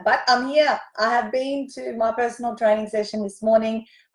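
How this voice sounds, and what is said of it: Hoarse, worn-out voice. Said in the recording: “my voice is gone from all the singing and dancing and hosting”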